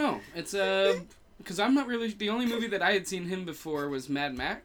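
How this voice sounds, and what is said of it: Usual voice. Nothing is said of it.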